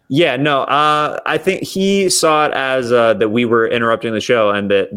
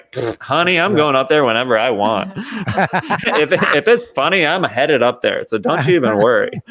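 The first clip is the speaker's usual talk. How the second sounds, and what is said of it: Sassy character voice. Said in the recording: “I'd just be like a sassy ... does that voice fit you so awesome ... You just did Mateo Lane perfectly”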